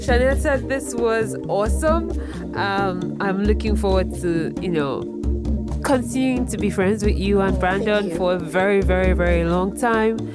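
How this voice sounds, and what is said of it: Nigerian-accented English. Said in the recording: “I'm too old in my life to start to try to learn how to speak like an American. ... my Nigerian accent is here to stay.”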